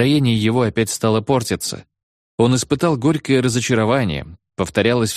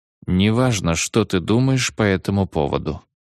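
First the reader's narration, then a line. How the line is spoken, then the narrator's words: Calm. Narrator (Russian): сказал он спокойно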